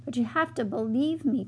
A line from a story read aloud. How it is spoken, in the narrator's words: cried Mona